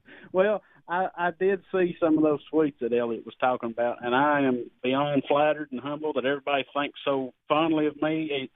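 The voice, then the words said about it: Strong North Philadelphia accent. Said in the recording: “some cat in North Philly with this accent”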